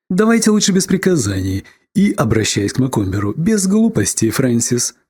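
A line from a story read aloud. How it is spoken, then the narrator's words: Cheerful. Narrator (Russian): сказала Марго весело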